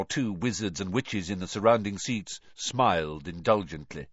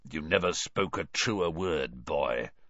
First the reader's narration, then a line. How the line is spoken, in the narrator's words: someone muttered dryly to Dumbledore behind Harry